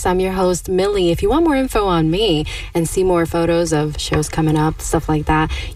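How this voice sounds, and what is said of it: Smooth radio voice. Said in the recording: “you have a very smooth radio voice.”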